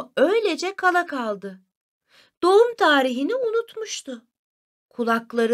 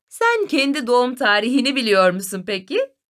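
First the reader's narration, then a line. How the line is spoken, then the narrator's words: Mother, laughing. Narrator (Turkish): dedi annesi gülerek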